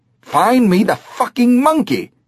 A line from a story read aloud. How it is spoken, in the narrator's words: the guy yelled